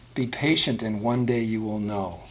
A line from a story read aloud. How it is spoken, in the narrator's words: Atta gently replied